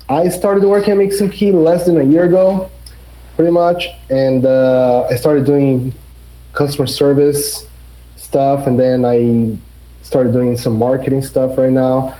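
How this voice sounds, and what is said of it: Brazilian accent. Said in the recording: “From Brazil, you guys can tell by the accent, I guess.”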